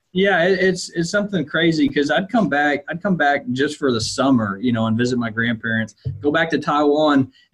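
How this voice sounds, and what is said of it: Southern American accent. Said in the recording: “It's very obvious you have this Southern accent.”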